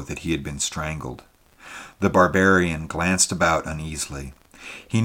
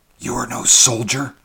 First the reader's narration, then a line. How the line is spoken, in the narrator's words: hissed the stranger at last